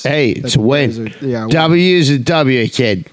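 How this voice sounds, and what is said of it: Impression of a sports coach, sniffing. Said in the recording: “I did my coach impression. He's sniff my nose.”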